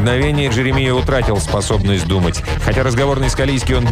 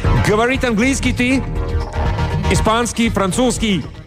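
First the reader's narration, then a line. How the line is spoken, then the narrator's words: Heavily accented Spanish. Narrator (Russian): Пилот заговорил по-испански с сильнейшим акцентом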